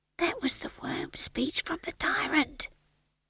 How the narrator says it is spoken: whispered Howell

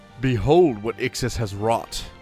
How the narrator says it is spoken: shouted

